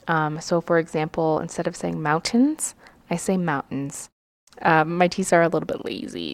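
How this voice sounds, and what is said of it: Slight Colorado accent, soft T's. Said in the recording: “I also am from Colorado, and I've told I have like a slight accent, so I don't really pronounce my T's”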